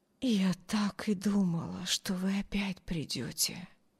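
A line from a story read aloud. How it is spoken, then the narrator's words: Barely audible whisper. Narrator (Russian): Едва слышно прошептали ее бледные губы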